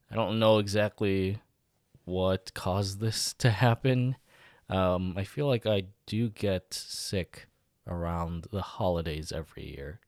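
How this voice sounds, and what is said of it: Voice sounds sick. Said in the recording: “you can probably tell from my voice that I am battling something right now”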